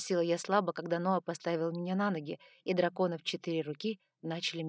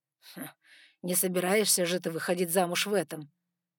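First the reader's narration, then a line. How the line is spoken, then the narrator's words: Serious snort. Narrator (Russian): с серьезным видом фыркнул Саймон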